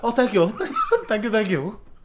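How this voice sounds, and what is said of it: Crude put-on Asian accent. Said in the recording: “what accent was that? ... A very crude Asian accent.”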